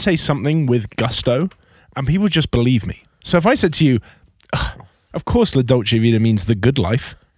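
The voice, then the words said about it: British accent. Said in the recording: “having a British accent”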